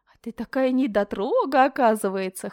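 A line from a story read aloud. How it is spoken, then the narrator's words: Laughing. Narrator (Russian): хохотала она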